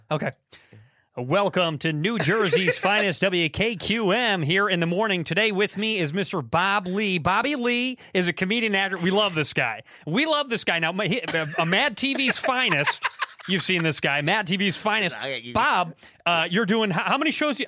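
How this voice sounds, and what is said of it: Impression of the radio host. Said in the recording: “I actually do an impression of you.”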